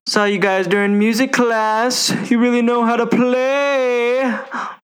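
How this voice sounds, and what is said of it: Imitates another person's voice. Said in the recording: “do your best impression of Jack Black”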